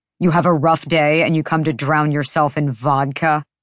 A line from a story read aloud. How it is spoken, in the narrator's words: He snorted